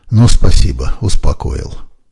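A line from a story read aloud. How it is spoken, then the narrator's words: Sigh. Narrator (Russian): вздохнула я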